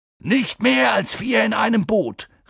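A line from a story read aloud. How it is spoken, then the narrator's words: Calling out. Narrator (German): rief Hagrid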